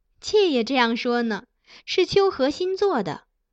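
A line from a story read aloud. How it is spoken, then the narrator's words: Laughing. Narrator (Chinese): 苗昭容笑道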